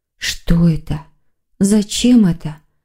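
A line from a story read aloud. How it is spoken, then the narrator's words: Soundless whisper. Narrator (Russian): одними губами прошептала девушка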